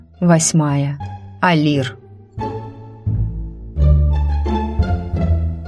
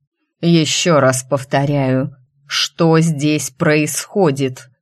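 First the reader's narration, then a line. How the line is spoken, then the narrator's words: Menacing but not steely. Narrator (Russian): Мой голос звучал грозно, но без так необходимого стального звона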